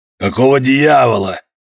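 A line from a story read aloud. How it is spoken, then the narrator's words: Rough hoarse distant voice. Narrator (Russian): послышался грубый, охрипший голос из глубины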